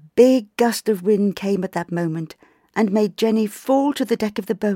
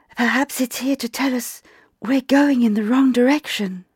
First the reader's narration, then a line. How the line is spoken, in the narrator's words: The little boat's voice whispered back